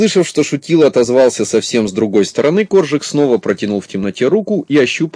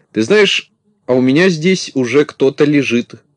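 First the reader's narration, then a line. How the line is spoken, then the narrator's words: Plain. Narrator (Russian): сказал Коржик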